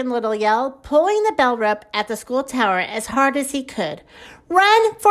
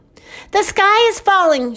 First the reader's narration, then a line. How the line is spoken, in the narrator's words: shouted Chicken Little